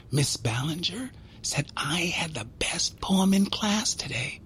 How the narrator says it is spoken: she'd whisper, like it was a secret

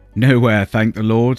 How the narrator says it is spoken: said he, and laughed

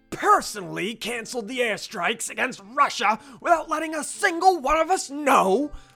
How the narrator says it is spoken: Wilson roared, causing the glass of the windows in the room to rattle in their frames

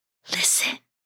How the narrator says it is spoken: whispered the slippers

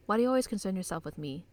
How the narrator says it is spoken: She asks coldly

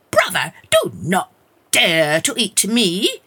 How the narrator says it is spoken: she shouted in a bold, fierce voice

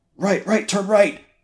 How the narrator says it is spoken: Raoul shouted

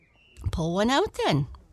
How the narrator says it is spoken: said kindly

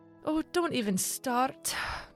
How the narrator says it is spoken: Mary sighed

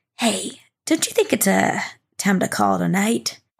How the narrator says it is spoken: whisper into their ear and say

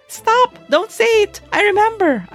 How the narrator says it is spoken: I shriek

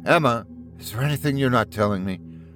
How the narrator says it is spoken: I ask her, my voice quivering

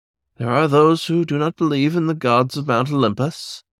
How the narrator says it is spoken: Agathocles grunted

